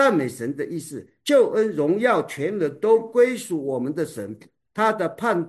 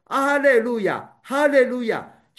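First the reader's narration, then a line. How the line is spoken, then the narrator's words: Loud crowd voice from heaven. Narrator (Chinese): 好像群众在天上的大声音说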